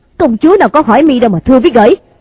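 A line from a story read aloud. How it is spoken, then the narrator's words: Furious outburst. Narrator (Vietnamese): Thôi Ma Ma tức giận lồng lên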